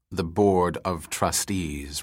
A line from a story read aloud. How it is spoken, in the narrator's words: replied Perrin coldly